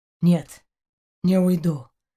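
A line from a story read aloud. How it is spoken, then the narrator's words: Muffled, dull. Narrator (Russian): глухо ответил он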